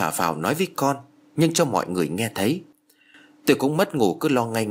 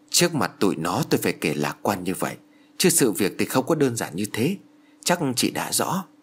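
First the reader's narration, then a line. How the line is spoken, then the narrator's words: Very soft speech. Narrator (Vietnamese): bà giáo Thái nói rất khẽ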